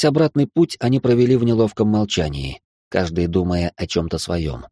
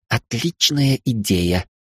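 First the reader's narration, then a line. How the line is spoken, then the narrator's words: Through gritted teeth. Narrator (Russian): сквозь зубы проговорила девушка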